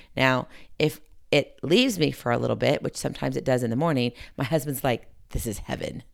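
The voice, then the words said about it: Slightly raspy voice. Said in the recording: “recovering like I am from a cold ... My voice, well, it's a little raspy.”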